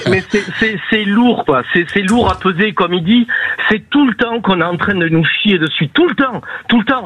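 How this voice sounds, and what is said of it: Southwestern French Landes accent. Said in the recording (French): “Vous avez l'accent des Landes.”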